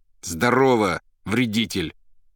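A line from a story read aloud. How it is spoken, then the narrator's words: Loud angry reply. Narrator (Russian): Злобно и громко ответил Иван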